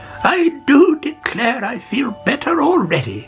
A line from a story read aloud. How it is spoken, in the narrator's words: she cried